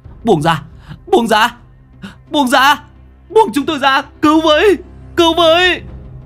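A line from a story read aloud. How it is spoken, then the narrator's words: Struggling group screaming. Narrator (Vietnamese): Cả bốn người dãy giụa gào thét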